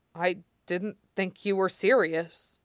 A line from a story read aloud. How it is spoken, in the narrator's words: Wen Yin says, his voice a little distorted